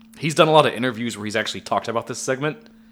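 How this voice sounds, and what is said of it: Strained, failing voice. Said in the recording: “My voice is dying”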